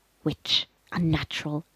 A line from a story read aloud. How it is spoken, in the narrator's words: hissed